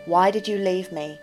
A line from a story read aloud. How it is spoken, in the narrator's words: she responded clearly and evenly